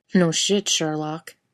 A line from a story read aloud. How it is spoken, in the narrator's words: Jim snorted and said